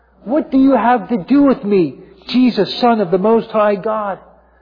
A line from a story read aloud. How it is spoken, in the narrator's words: He cried out